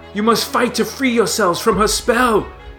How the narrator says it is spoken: Prince Adam screamed to little effect

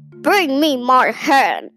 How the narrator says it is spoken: roared the greedy giant

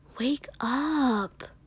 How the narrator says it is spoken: Kiri whispered

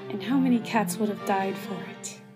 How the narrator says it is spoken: Blue Star murmured, almost to herself

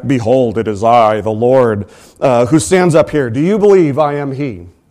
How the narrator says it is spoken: a voice thundered back

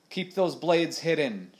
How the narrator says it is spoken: shouted Stash

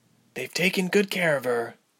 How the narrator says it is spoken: Ilse murmured

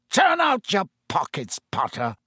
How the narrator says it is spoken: he spat suddenly

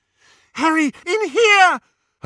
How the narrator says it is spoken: Hermione screamed

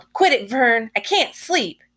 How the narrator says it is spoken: Vanetta yelled

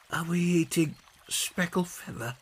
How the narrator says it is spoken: he whispered back

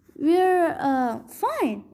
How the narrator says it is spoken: Annabeth stammered

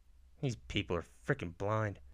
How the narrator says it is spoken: he mumbles

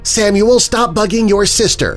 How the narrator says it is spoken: Rose yelled

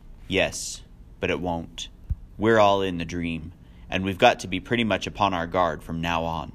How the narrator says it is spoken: said gravely

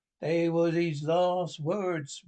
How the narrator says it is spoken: moaned Morgan

